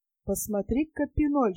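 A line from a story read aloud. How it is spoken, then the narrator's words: Whispering. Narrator (Russian): шепотом обратился Рим к своему товарищу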